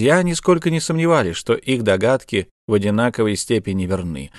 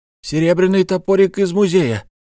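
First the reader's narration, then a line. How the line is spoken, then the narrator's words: Simultaneous exclamation. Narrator (Russian): одновременно воскликнул Штраус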